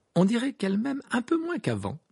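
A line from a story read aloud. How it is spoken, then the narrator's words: Light tone. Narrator (French): dit Harry d'un ton léger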